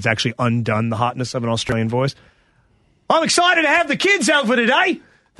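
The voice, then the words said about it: Loud, gregarious Australian accent. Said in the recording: “has an Australian accent that's so gregarious when she speaks ... very, very loud”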